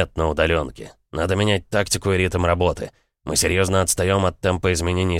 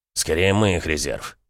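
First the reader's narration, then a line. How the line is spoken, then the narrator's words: Grumbled. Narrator (Russian): проворчал Иван Егорович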